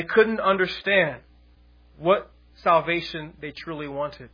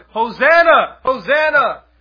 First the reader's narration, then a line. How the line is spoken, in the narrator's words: the people shouted